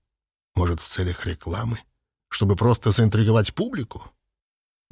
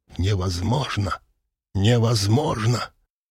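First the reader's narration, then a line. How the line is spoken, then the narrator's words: Indignant hissing. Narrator (Russian): Люди возмущенно шипели ему в спину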